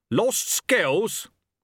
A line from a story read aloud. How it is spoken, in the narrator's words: snapped Chaos